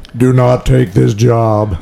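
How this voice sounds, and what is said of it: Booming godlike voice from above. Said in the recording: “this booming voice, like from above”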